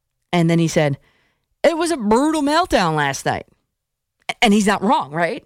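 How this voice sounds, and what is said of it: Usual voice. Nothing is said of it.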